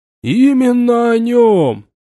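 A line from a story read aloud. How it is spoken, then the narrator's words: Shout from audience. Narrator (Russian): выкрикнул кто-то из слушателей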